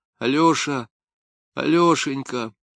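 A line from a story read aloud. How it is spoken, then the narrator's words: Quiet then louder. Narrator (Russian): сначала негромко, потом громче сказала она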